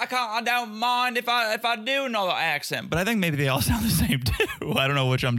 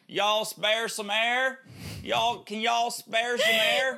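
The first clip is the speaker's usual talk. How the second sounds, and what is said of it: Put-on Kentucky accent. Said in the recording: “That's ... Tennessee accent ... No, Kentucky ... It's my Kentucky accent. It's pretty good. Not bad.”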